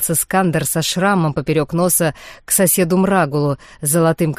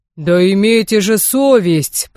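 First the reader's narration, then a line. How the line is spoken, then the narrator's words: Deep bass voice. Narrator (Russian): пробасил какой-то леплер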